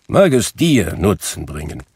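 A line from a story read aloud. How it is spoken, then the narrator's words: Grumbling. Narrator (German): brummte Scrooge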